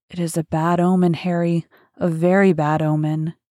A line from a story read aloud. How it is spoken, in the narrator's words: Dorian said with a heavy sigh